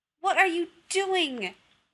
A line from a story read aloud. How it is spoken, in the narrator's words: Rodney yelled